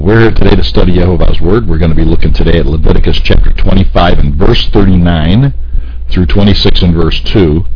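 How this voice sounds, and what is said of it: Voice deeper than usual, strained. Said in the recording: “right on my vocal cords, so I'm not going to be singing or nothing today ... You can hear it in my voice, I'm sure. My voice is deeper than it generally is.”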